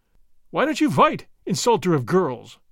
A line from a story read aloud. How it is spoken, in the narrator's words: cried